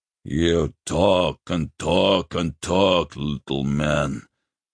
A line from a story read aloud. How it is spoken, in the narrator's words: the grasslander snarled